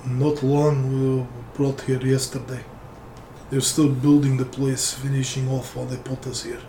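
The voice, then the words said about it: Put-on Russian accent. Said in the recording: “I'll answer as the dwarf. I feel like doing a Russian accent instead.”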